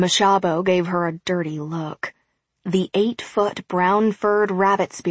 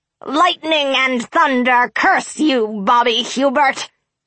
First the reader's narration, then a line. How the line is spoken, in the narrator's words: Sheena snarled